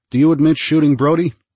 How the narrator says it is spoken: The boy said in a muffled voice

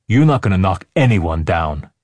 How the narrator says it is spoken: Andy growled

